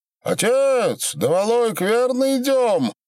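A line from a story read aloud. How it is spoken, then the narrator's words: Serious shout. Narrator (Russian): всерьез крикнул ему Аляной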